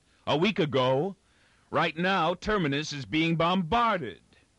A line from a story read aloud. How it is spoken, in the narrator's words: shouted back Miz